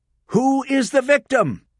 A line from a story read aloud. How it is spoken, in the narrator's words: Rachel shouted